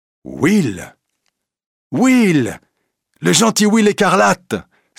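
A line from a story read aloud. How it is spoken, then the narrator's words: Exclaiming. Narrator (French): s'écrie Robin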